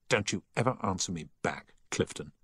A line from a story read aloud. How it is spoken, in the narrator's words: he said angrily